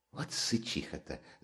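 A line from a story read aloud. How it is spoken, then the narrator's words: Amused whisper. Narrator (Russian): зашептала Катерина Ивановна Раскольникову, почти развеселившись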